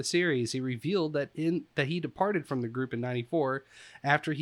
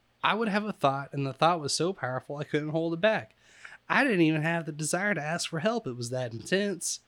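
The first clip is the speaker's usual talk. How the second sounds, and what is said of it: Put-on Southern US accent. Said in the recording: “I don't know why I'm giving him a southern accent, but we're going to stick with it.”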